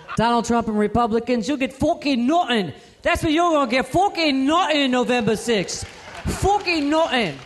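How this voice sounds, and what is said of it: Conor McGregor impression, Irish accent. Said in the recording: “my Conor McGregor impression”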